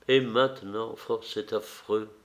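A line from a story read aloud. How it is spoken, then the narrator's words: Murmured. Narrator (French): murmura-t-elle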